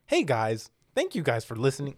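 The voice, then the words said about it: Imitates another person's voice. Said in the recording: “do the voice Joshua does for me”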